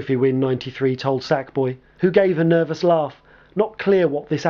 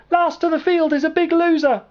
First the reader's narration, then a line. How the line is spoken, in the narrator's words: cackling